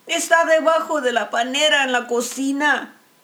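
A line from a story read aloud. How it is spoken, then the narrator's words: Woman shouting. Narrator (Spanish): le gritó la señora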